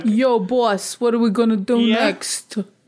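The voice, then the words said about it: Exaggerated New York Brooklyn accent. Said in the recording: “American accent... It's a little like New York, Brooklyn kind of thing... Like, really exaggerated”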